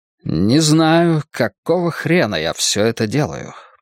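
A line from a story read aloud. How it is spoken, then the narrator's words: Grumbled. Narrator (Russian): проворчал Крамли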